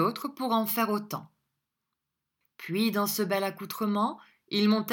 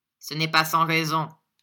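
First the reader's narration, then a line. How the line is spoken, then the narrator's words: Curt reply. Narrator (French): répondit Ralph sèchement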